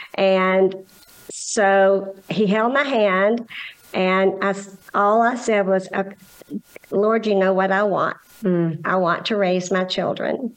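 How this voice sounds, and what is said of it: Scottish accent. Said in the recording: “that beautiful Scottish accent”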